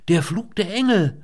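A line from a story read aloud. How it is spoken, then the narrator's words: Excited call. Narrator (German): rief sie begeistert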